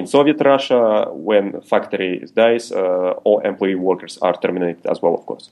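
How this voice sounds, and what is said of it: Put-on Russian accent. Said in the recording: “speak the rest of the podcast in that particular accent”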